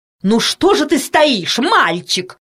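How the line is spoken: Angry woman. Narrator (Russian): сердито сказала толстая тетя

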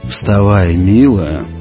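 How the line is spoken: Hoarse, tender, dazed. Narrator (Russian): хрипло, но нежно сказал Григорий, сам не понимая, что говорит

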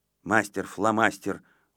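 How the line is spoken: Grumbled. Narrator (Russian): буркнул Авоська

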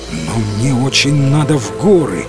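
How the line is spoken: Exclamation. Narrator (Russian): воскликнул рыцарь

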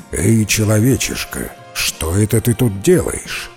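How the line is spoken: Menacing question. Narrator (Russian): див и грозно спрашивает

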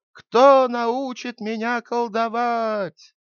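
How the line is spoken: Child's loud shouting. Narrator (Russian): мальчик стал кричать громким голосом

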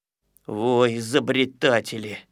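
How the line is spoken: Grouch grumbling. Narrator (Russian): ворчал ворчун

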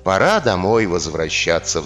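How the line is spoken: Sighing old man. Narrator (Russian): вздохнул бедный старик

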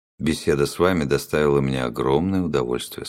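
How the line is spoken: Plain. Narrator (Russian): сказал он

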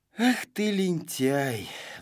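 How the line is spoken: Sighing. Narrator (Russian): вздохнул Знайка

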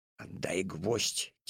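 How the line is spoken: Quiet. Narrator (Russian): тихо сказал Алешка

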